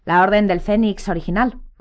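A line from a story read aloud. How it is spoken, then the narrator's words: Growled. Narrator (Spanish): gruñó Moody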